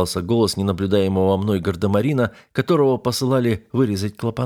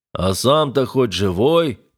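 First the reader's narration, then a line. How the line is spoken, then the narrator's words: Deep bass voice. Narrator (Russian): пробасил боцман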